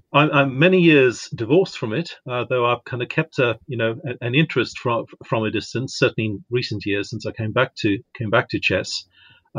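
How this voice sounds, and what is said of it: South African accent. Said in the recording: “You're from South Africa originally? ... I am. Yeah, I can make the accent a lot stronger if you need it to be.”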